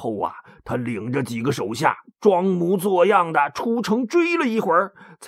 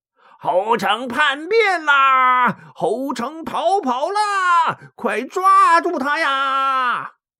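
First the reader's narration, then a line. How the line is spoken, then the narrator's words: Feigned loud shouting. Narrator (Chinese): 假装着在后边大喊大叫道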